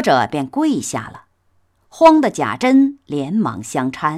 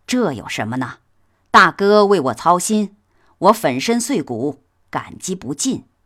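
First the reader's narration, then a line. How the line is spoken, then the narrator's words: Laughing. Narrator (Chinese): 贾琏笑道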